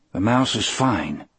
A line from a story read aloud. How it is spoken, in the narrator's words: I said